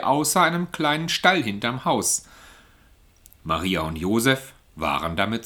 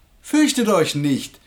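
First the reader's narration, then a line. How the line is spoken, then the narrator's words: Voice calling out. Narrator (German): rief eine Stimme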